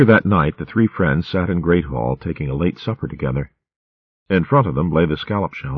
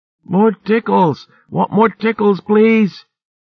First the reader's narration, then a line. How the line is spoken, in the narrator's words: he squealed